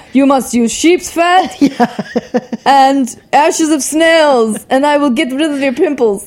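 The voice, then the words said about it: Put-on Russian accent. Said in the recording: “I don't know why he has a Russian accent.”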